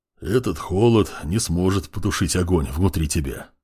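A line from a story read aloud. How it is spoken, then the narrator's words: Big man's bass voice. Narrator (Russian): пробасил здоровяк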